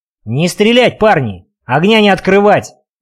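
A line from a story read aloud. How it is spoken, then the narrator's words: Hurried shout. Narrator (Russian): крикнул торопливо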